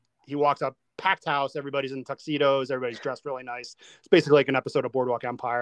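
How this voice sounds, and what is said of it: Usual voice. Nothing is said of it.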